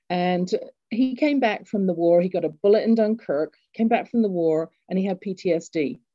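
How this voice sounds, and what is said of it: English accent. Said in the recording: “I grew up in England, you can tell from my accent”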